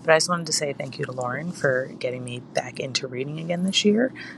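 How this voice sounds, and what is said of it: Hoarse, fading voice. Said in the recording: “losing my voice”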